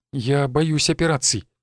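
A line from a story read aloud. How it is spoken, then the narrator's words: Frightened. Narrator (Russian): испуганно ответила она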